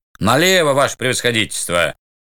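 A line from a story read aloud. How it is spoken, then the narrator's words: Rough coachman's shout. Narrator (Russian): грубо крикнул с козел кучер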